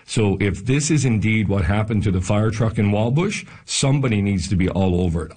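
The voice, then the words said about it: Frustrated, exasperated tone. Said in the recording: “the level of frustration that you're probably hearing in my voice”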